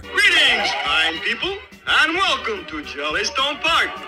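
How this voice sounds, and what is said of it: Cartoon bear character voice. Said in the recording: “the most recognizable voice in animation, you know, like a cartoon voice? ... the most recognizable voice is Yogi Bear.”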